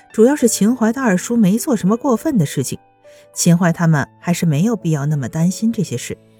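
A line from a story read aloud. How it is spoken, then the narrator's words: Smiling. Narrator (Chinese): 秦淮笑着说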